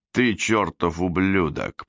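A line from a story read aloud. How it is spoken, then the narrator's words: Growled on recording. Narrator (Russian): прорычал на пленке Эндрюс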